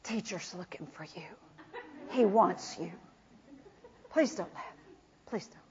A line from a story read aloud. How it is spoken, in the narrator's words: whispered said